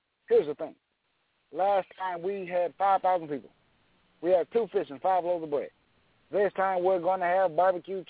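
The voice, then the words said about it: Barack Obama impression. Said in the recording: “I think right now my Obama's pretty good.”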